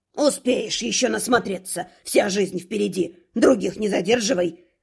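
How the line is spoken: Good-natured grumble. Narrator (Russian): добродушно пробурчал он

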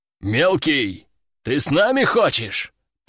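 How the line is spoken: Deep bass voice. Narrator (Russian): пробасил один из них

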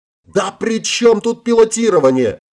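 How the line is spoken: Exasperated exclamation. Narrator (Russian): в сердцах воскликнул Марк

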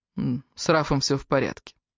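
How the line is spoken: Calm. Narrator (Russian): спокойно ответил Дэниел

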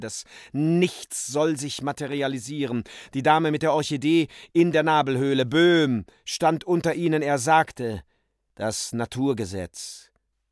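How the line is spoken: Groaning. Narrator (German): stöhnte Heinrich Lippenknabe

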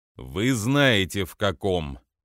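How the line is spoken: Growling. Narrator (Russian): прорычал он

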